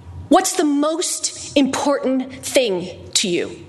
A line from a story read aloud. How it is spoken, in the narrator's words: she said, blurting it out